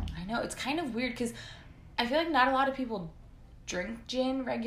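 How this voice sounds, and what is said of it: Usual voice. Nothing is said of it.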